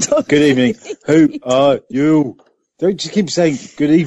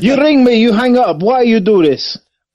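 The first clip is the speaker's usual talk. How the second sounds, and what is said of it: Put-on accent. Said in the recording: “What accent was that?”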